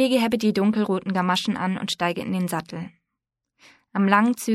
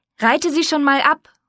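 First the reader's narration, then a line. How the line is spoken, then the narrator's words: Calling out. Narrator (German): ruft Ma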